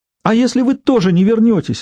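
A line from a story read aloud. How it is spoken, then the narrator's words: Desperate exclamation. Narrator (Russian): воскликнул Элейн в отчаянии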